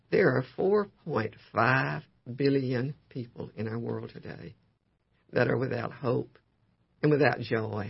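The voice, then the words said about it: Voice in poor condition. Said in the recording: “my voice is not good today”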